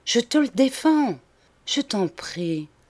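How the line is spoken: Soft and sad. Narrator (French): ajouta-t-elle doucement et tristement

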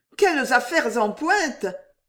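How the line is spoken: Exclaimed. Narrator (French): s'écria la Mono

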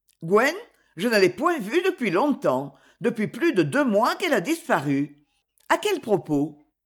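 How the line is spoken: Curt, impatient interruption. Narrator (French): Dougal l'interrompit d'un ton bref et impatient

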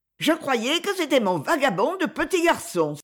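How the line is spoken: Apologetic exclamation. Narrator (French): s'écria-t-elle comme pour excuser la présence de la canne

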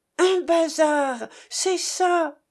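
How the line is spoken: Excited exclamation. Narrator (French): s'écria Grip

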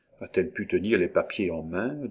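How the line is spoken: Low-voiced question. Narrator (French): demanda Monsieur Beau-Fils, également à voix basse

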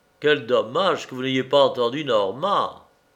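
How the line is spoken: Sighing. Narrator (French): Olympiade soupire

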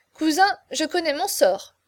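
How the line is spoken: Playful exclamation. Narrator (French): s'écria plaisamment le marquis

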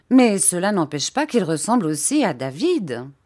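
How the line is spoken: Aunt, assertive tone. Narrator (French): dit ma tante d'un ton positif

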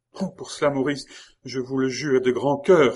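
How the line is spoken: Delighted exclamation. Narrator (French): s'écria Geneviève, enchantée que Maurice lui offrit lui-même cette transaction avec sa conscience

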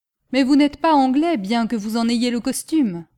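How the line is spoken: Shout. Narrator (French): lui cria le scieur de bois

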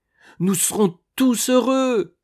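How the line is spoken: Exclaimed. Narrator (French): s'écria Lucien en avalant son potage à grande cuillerée

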